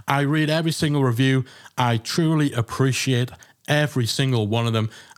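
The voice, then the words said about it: Speaker's own distinctive accent. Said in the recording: “my funny accent”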